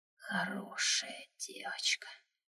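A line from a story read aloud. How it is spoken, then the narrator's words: Halting whisper. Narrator (Russian): сбивчивый шепот ледышки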